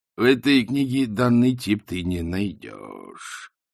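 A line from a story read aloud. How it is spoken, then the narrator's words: Slow speech. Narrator (Russian): медленно проговорил Ринсвинд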